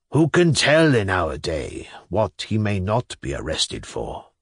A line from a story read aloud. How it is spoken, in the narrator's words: he muttered enigmatically